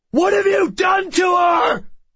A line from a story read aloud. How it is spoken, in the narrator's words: I shouted